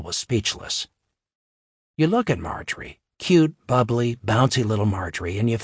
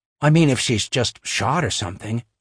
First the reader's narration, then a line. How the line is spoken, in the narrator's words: Marjorie said